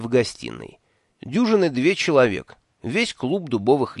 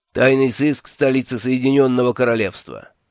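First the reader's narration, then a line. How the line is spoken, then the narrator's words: Dry introduction. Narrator (Russian): сухо представился Джуфин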